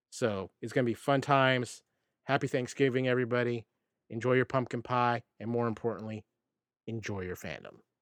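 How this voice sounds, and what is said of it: Slightly froggy, hoarse voice. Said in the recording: “if my voice is a little froggy during this show, I've had a little bit of a viral infection”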